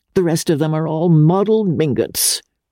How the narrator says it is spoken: cried the old lady scornfully

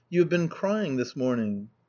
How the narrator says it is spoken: looked at me gravely, and said

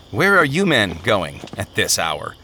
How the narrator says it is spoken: asked

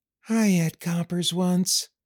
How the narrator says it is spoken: Curly said dreamily

